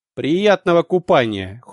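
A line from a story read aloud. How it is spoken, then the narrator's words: Cold interruption. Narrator (Russian): холодно оборвал ее бывший агент Салим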